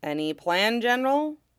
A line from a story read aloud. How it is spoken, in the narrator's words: Shatter muttered in Rill